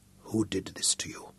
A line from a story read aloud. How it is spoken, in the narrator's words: asked softly